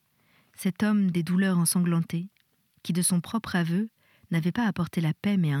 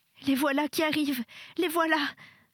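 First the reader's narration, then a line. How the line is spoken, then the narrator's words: Child sobbing. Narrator (French): sanglotait l'enfant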